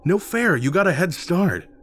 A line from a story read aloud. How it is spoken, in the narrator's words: Rick whined, as he scrambled to catch up